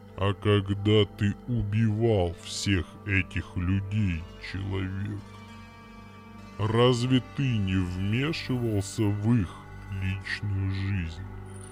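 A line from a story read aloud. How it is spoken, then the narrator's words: Even-toned stony bass question. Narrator (Russian): Ровным тоном спросил каменный бас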